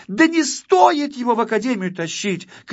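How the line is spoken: Little girl shouting. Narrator (Russian): кричала малышка-модница

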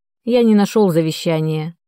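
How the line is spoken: Tired announcement, father. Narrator (Russian): устало объявил отец

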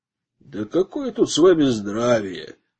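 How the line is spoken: Man grumbling. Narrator (Russian): пробурчал мужчина

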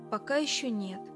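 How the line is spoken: Sad reply. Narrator (Russian): печально ответил Билл

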